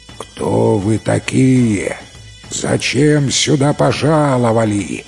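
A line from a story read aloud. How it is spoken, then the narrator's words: Giant roaring from afar. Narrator (Russian): проревел великан издалека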